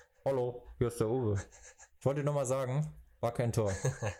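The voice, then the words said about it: Distorted voice. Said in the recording (German): “Mit so einer verzerrten Stimme.”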